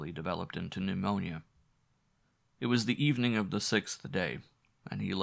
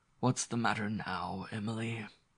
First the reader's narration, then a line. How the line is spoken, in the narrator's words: he asked feebly, yet irritably